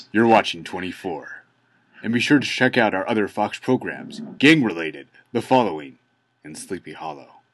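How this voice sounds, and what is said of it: Imitates a TV network voiceover announcer. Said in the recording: “that was a good impression of the voiceover as well ... you like my impression? ... I'm sure it was close.”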